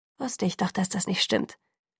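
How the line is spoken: Murmuring. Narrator (German): murmelte Angela zu Jessica gewandt

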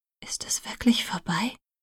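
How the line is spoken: Whispered. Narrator (German): flüsterte ich Edward zu

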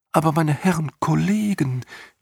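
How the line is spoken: Ghost whimpering, interrupting. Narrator (German): wimmerte ein hohlwangiges Gespenst dazwischen

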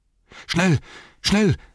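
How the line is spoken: Called out, panting. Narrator (German): rief keuchend

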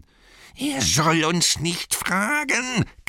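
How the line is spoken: Shrieking. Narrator (German): kreischte Gollum

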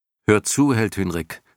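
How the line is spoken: Plain. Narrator (German): sagte er

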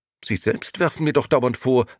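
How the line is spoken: Angry woman replying. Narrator (German): erwiderte die Dame nun ebenfalls wütend

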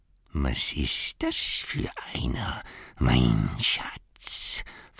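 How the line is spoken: Whispering to himself. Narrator (German): flüsterte Gollum, der immer mit sich selbst sprach

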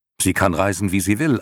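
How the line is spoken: Answered sharply. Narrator (German): antwortete Atreo scharf

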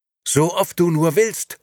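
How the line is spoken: Shouted. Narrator (German): schrie Nino

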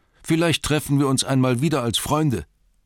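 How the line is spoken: Calling out. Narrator (German): rief er ihnen zu

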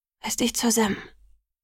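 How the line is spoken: Said quietly. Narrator (German): sagte ich leise

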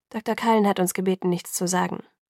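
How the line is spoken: Plain. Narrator (German): antwortete Dr

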